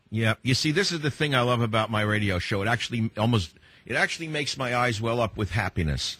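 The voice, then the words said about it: Heavy New York accent. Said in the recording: “I'm a boy from New York City with a heavy New York accent”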